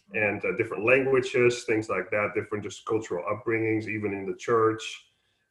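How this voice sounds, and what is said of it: Slight Dutch accent. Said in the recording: “you pick up a bit of an accent. So I'm originally from the Netherlands”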